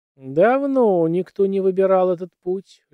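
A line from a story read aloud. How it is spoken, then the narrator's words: Lazy female drawl. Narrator (Russian): лениво протянула она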